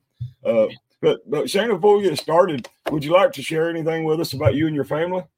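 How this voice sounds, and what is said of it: Weak, sore-throated voice. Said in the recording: “my voice is really weak. I have a sore throat, ... the quality of my voice. I'll try to keep the coughing down to a minimum.”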